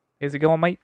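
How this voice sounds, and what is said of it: Put-on New Zealand accent. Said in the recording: “I like that you went for the Kiwi accent rather than the American on that one. That was good.”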